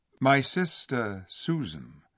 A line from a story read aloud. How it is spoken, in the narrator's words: answered Peter shortly and gravely